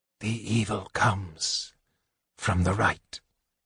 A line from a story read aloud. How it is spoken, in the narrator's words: Raistlin whispered